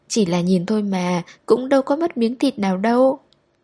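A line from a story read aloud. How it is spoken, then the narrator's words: Laughing. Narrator (Vietnamese): A Tây không nhịn được bật cười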